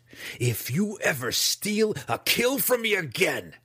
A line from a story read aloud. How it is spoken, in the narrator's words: he spat, sincerity dripping from the false words